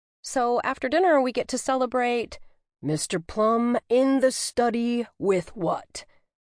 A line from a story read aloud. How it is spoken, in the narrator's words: loudly announced